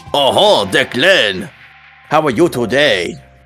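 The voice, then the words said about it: Bad put-on heavy French accent. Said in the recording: “this man has a very heavy French accent going on ... It's very bad, I apologize.”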